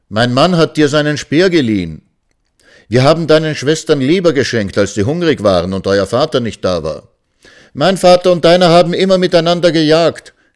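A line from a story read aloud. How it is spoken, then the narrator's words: Shouting. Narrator (German): schrien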